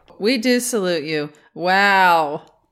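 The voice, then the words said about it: Imitates another person's voice. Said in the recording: “That's my impression of you.”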